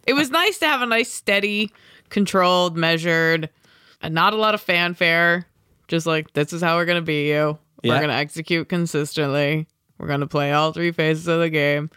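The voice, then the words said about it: Flat, bored imitation of another person. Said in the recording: “like your half Belichick impression ... that's how he sounds ... Or you're just really disinterested in what we're talking about ... I'm just really fucking bored”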